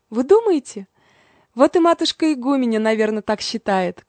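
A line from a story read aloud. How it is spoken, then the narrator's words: Meek sigh. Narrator (Russian): кротко вздохнула мать Евдокия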